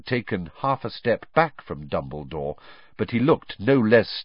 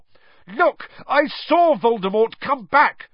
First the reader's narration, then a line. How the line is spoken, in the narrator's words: Harry shouted